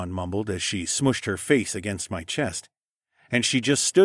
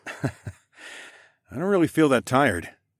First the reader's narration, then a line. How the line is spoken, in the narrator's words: I chuckled